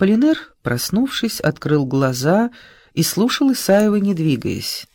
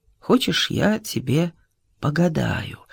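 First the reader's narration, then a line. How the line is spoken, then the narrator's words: Quiet question. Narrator (Russian): тихо спросил Исаев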